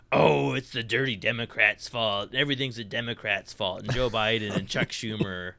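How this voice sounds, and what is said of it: Imitates another person's voice. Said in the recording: “That's my Dan Sullivan impression.”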